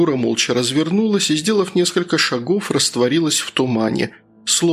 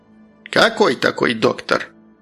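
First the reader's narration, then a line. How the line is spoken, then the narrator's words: Old woman grumbling. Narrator (Russian): проворчала старушка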